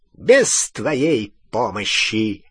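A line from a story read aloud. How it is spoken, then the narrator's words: High, clear voice. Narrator (Russian): отозвался Волан-де-Морт высоким, ясным голосом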